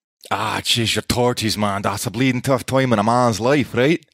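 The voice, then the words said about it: Put-on Irish accent, sounds Scottish. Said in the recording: “one phrase that you can say particularly well in Irish ... It's a little Scottish.”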